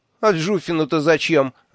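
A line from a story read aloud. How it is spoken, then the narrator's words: Laughing loudly. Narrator (Russian): расхохотался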